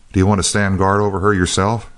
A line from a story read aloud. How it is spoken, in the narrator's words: said